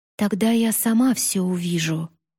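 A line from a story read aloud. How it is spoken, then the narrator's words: Whisper. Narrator (Russian): прошептала Юри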